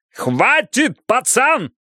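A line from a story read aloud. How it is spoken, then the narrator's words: Yelling. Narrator (Russian): заорал Бидвелл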